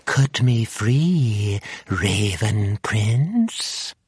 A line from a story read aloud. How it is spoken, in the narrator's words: she cooed